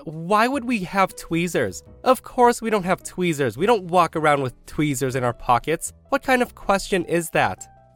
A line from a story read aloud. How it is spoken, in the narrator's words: the daughter snaps